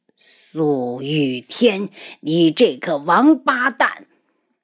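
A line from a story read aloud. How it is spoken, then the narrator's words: Old man's resentful roar. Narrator (Chinese): 一名须发皆白的老人 发出不甘的怒吼声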